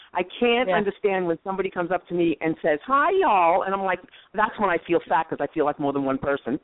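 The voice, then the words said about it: New York accent. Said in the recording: “I think you sound more New York ... you sound more New Yorkish ... Oh, I am. I will never change my accent.”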